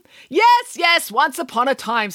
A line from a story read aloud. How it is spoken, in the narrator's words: snapped Nanny Piggins